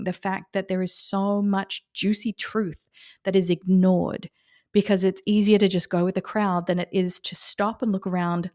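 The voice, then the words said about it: Excited, energetic voice. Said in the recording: “as you can hear from my voice, I'm really excited”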